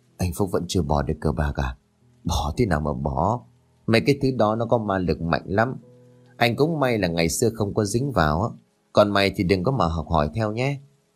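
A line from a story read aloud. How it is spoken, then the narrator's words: Resigned sigh. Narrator (Vietnamese): Tôi liền lắc đầu thở dài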